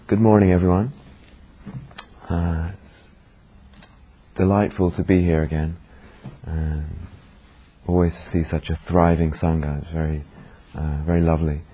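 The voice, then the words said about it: Hoarse sore-throated voice. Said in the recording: “I've got quite a sore throat, and I'm hoping that my voice is still reaching the back ... if it gets quiet”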